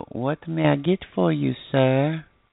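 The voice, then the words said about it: Put-on French maid accent. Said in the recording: “a nice little, you know, girl with a French accent that wants to, you know, wear the little French maid costume”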